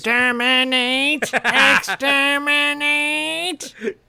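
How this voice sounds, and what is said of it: Dalek robot voice impression. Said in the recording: “his Dalek, his best Dalek impersonation.”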